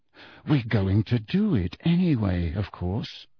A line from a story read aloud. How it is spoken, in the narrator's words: he said quietly